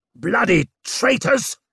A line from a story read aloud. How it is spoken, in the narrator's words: snarled Ruxted